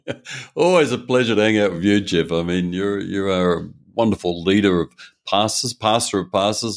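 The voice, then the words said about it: Australian accent. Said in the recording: “he's got an Australian accent”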